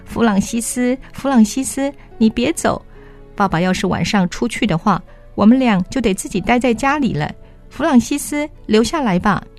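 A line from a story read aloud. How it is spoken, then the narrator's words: Tearful, crying. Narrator (Chinese): 泪水流了下来，哭着说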